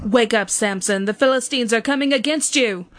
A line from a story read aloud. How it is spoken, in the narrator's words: she called out to him